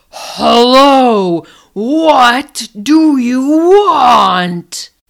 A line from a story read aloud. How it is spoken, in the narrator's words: the North Wind bellowed out in his big, gruff voice